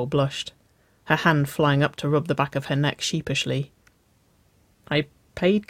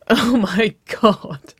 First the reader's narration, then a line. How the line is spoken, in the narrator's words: Waverley laughed